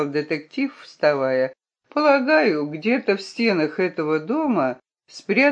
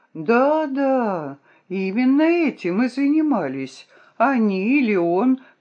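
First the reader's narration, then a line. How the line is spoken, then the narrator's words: Exclamation. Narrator (Russian): воскликнула я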